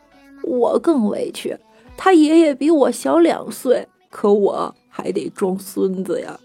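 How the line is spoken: Aggrieved old man crying. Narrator (Chinese): 老头子很不满的哭着说道

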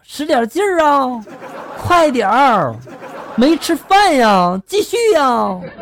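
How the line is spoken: Loud shout. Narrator (Chinese): 隔壁大姐大声的就喊了

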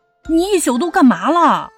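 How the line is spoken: Angry loud shout. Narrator (Chinese): 一夏立刻生气失态似的大声喊起来

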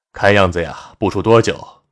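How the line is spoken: Laughing. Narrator (Chinese): 杜经燕笑道

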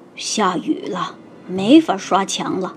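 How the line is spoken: Grumbling mutter. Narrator (Chinese): 油漆工嘟囔

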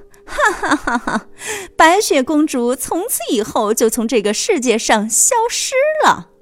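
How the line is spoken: Wicked laughter. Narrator (Chinese): 坏心的皇后大笑着说

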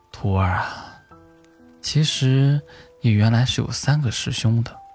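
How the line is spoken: Sighing. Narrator (Chinese): 老和尚这才叹了口气

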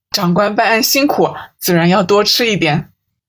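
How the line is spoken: Laughing despite himself. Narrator (Chinese): 阿七失笑道

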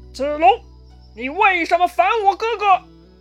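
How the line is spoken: Loud shouting. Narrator (Chinese): 张飞大喊

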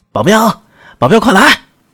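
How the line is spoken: Shouting. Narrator (Chinese): 柯建轩大声喊道

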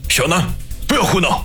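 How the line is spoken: Alarmed furious roar. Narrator (Chinese): 梁国俊大惊失色，几乎是咆哮着吼道

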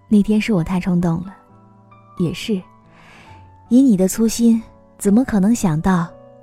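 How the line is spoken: Self-mocking laugh. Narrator (Chinese): 芝芝自嘲一笑，他说

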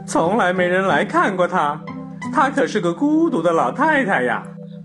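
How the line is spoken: Small creature muttering. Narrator (Chinese): 一只小老鼠嘟囔着

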